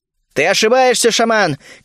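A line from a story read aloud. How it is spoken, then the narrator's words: Shout. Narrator (Russian): крикнул я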